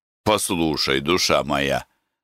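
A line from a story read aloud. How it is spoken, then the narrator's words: Plain. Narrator (Russian): сказал я Прокопу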